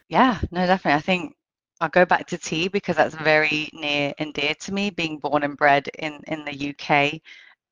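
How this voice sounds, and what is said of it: British accent. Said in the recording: “accent, British”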